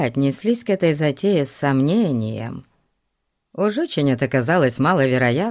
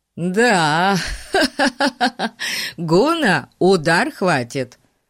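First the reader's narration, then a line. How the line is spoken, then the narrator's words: Interjecting. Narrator (Russian): вставил Ларри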